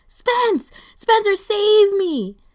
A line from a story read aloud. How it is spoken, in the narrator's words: screeching